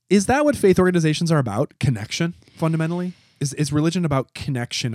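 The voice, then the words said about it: Skeptical, doubting tone. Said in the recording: “I guess I'm speaking in my skeptical voice.”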